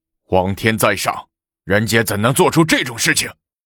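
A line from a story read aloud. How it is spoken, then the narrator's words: Frightened, hurried. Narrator (Chinese): 吓得王德寿急忙道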